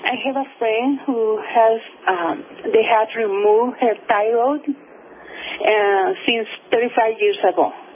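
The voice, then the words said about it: Caller speaking with an accent. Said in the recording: “I have an accent, so bear with me.”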